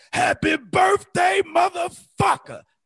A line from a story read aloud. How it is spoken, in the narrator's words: he's steady yelling